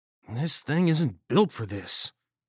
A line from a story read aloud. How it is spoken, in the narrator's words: he muttered